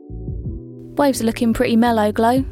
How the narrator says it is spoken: said

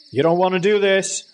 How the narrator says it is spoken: Dad yelled

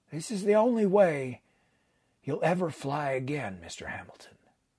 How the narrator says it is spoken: added quietly

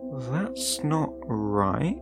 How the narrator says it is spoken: I had muttered

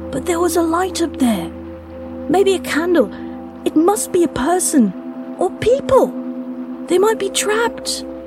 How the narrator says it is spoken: Luca pleaded as much with his tone as his words

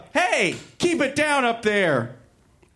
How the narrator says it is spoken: Kermit yelled up

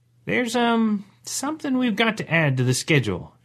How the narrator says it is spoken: said hesitantly

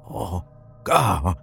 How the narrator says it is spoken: Sean croaked

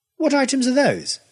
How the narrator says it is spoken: demanded crossly

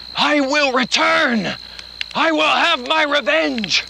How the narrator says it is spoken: as he screamed out, burned alive, he cried out

